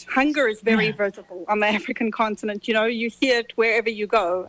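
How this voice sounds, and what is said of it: Zimbabwean accent. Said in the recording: “I was born in Zimbabwe. You hear I have an accent.”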